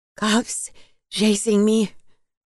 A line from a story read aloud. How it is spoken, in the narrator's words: Elena mumbled